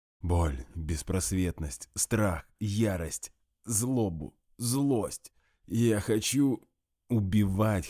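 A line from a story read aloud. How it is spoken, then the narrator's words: Faint unintelligible wheeze. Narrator (Russian): хотел сказать он, но смог только просипеть что-то невнятно, цепляясь за реальность уплывающим сознанием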